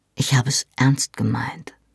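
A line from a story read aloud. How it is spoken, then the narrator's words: Soft-spoken. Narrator (German): sagte er leise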